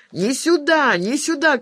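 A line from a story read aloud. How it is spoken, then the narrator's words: Shouting. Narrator (Russian): кричали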